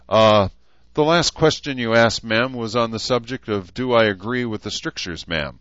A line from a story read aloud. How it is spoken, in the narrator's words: Gunny barked helpfully